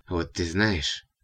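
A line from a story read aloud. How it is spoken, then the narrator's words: Quiet and calm. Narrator (Russian): продолжала богомолка уже тихо и спокойно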